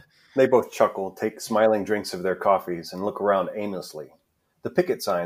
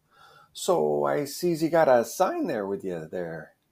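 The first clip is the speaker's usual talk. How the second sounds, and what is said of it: Put-on Midwest American accent. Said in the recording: “in her best Midwest accent.”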